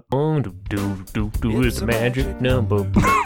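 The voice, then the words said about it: Imitates another person's voice. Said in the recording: “my Jack Johnson impersonation ... It's pretty good”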